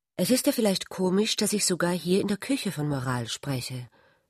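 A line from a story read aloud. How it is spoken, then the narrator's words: Embarrassed. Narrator (German): sagte Ulrich verlegen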